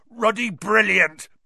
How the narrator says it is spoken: boomed Hagrid over the heads of the milling Gryffindors

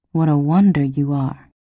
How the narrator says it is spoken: he murmured

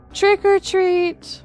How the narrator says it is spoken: shouted

